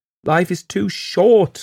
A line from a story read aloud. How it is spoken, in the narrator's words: cried again and again